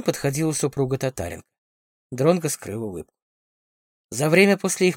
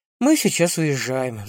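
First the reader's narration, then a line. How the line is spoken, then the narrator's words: Sighing. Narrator (Russian): вздохнула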